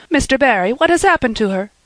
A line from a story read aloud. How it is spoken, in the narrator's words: she gasped, more white and shaken